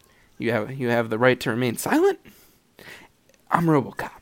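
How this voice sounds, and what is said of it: Poor robotic movie-character voice impression. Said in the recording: “my RoboCop impression ... That's a horrible RoboCop impression.”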